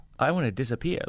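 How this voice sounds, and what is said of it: Toddler impression, New York accent. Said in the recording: “all toddlers have a Boston accent ... when you said it, it sounded a little more New York”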